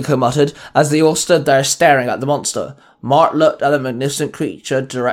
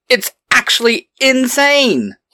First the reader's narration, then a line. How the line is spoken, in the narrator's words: Eric blurted